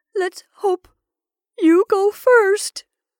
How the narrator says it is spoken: sobbed his wife

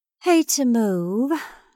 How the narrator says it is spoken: sighed Sally Carol lazily

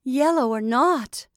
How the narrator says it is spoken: cried a lady

